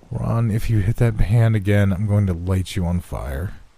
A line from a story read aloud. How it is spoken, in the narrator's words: she said flatly